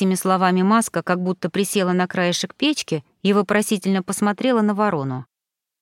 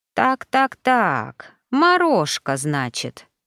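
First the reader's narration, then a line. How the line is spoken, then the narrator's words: Thoughtful drawl. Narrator (Russian): задумчиво протянула Ритва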